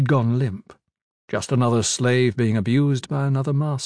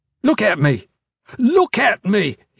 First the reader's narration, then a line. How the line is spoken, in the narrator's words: he shouted